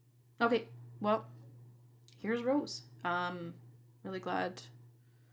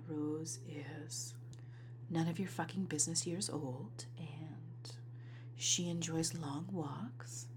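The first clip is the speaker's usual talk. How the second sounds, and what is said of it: Sexy, seductive voice. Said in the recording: “sexy voice”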